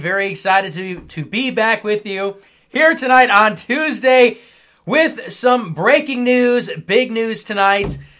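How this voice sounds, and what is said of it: Strained, sick-sounding voice. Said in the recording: “maybe you can hear that my voice is a little bit strained. I am a bit under the weather. I'm very sick”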